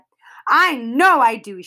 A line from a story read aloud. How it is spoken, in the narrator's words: Sheila cried